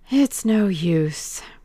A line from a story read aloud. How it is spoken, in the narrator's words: sighed Adrian Singleton